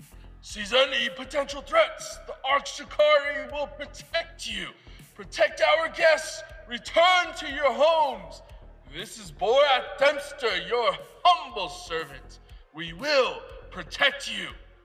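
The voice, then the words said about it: Booming announcer voice. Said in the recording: “You hear over the projector in a booming voice.”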